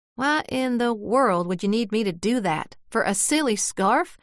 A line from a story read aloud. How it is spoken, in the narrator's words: Flugie snarled